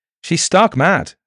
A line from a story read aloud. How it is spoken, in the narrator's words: said Arthur Rees nervously